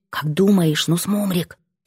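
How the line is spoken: Whisper. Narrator (Russian): Я тоже понижаю голос до шепота

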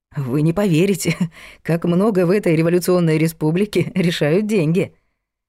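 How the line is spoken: Laughing, lowered voice. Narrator (Russian): засмеялась Лена, понизив голос

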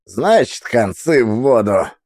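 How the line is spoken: Fat man chuckling. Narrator (Russian): добавил толстяк и хохотнул

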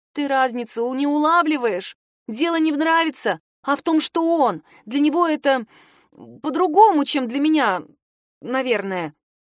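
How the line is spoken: Very unsure. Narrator (Russian): заканчивает она совсем неуверенно

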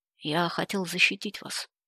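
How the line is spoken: Gloomy. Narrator (Russian): мрачно ответил

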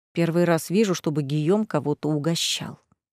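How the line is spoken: Whisper. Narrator (Russian): прошептал Грэм

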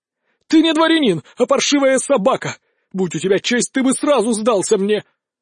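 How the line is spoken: Furious shout. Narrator (Russian): окончательно выйдя из себя, Луцкий наконец закричал

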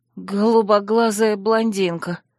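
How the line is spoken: Hoarse reply. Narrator (Russian): хрипло отозвалась я

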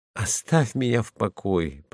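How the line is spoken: Dejected voice. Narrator (Russian): подавленным голосом отвечает младший

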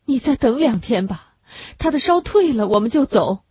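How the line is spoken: Crying. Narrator (Chinese): 那女人只是个哭

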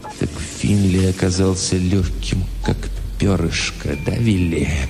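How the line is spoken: Dull, muffled. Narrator (Russian): глухо сказал Хэмпхилл

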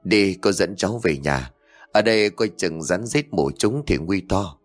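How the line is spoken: Sighing. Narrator (Vietnamese): Ngọc Lan thở dài bảo

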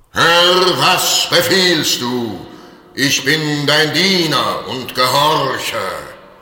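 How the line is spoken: Thunderous spirit voice. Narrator (German): der Geist ... rief mit Donnerstimme

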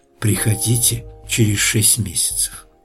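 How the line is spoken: Whisper. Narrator (Russian): прошептала она

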